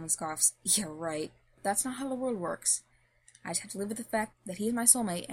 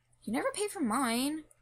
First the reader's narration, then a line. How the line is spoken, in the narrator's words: Ray whines